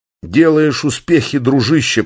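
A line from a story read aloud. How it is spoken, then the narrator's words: Groaning. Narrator (Russian): простонал Чарли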